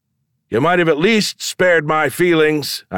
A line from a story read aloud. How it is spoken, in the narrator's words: I shouted